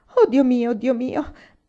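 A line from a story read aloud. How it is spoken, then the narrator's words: Moaning. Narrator (Italian): gemette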